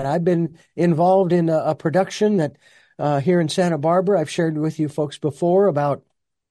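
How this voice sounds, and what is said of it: Voice sounds sick, slightly hoarse. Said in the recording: “as you can hear in my voice, uh, caught a little something”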